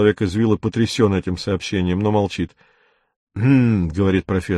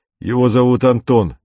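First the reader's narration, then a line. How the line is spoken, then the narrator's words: Loud. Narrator (Russian): громко, говорит Виктор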